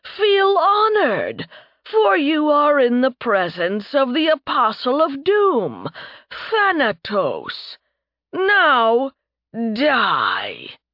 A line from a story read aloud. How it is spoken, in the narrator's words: the messenger boomed